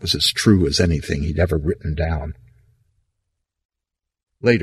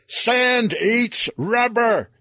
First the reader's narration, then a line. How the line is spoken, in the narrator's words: he yelled